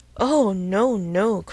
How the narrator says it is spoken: cried Emma, laughing as carelessly as she could

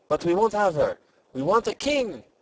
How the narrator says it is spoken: exclaimed the Jacques Rose

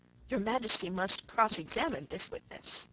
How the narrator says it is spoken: said, in a low voice

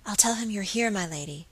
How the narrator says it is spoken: whispered Phoebe

